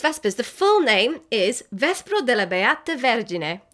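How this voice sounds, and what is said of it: Put-on Italian accent. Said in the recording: “Your accent's getting better every time.”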